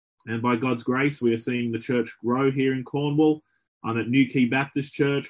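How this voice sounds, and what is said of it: Australian accent. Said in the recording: “my accent gives it away that I'm not from here. I'm from Australia”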